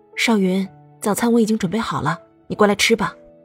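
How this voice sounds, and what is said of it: Quiet, lowered soft voice. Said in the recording (Chinese): “刘倩蓉压低了声音。 小声的说道”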